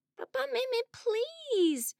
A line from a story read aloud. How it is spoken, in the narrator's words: begged Adolfo